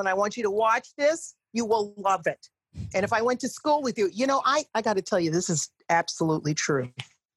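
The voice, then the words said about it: Native Long Island accent. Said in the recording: “I say that in my native tongue. I am not mocking this accent. This is the one I was born with ... I grew up in Long Island”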